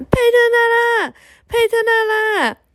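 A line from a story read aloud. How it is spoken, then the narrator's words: Shouting with all their might. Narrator (Chinese): 兄妹俩使出浑身的力气大喊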